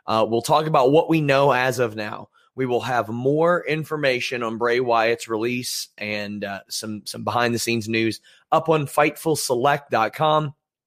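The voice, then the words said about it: Strained, not fully recovered voice. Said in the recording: “apologize for my voice. It's still recovering. It's not quite back yet”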